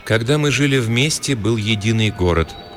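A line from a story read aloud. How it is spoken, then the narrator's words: Slow gentle warm voice. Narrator (Russian): неторопливо ответила синица домашним нежным голосом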